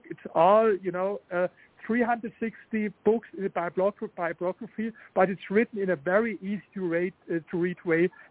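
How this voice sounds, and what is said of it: Strong foreign accent. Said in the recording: “my sharp accent”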